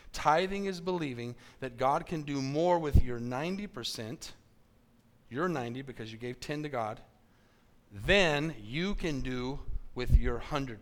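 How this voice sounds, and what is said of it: Slow, deliberate speech. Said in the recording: “I'm going to say this slowly.”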